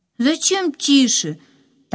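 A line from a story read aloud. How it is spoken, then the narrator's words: Loud question. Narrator (Russian): так же громко спросила Катя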